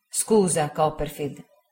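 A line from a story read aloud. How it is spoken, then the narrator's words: Plain. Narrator (Italian): disse Traddles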